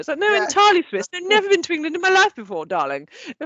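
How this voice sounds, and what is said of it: Put-on plummy, crisp English accent. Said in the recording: “such a plummy English accent ... an accent that fucking crisp”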